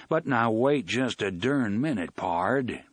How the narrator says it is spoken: Blaine said in his John Wayne voice

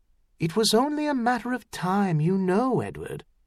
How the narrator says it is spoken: she said softly

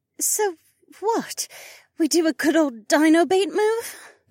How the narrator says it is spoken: Becca sighed

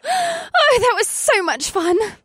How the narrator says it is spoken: Alyssa squealed

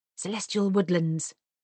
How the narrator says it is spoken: murmured Mr

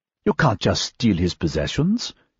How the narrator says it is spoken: Quirrenbach said meekly

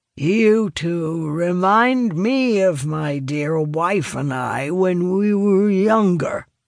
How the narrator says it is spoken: he slurs

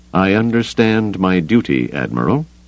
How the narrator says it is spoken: Brandeis said stiffly

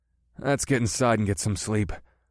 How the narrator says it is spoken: rumbled

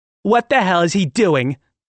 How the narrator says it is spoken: Delaney yelled

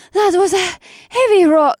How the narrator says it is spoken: Alyssa panted

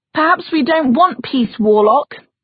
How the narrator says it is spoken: someone shouted

